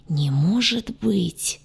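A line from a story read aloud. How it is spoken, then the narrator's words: Silent mouthed moan. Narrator (Russian): одними губами простонал док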